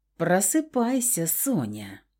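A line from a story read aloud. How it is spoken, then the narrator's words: Low male purr. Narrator (Russian): Мурлыкнул низкий мужской голос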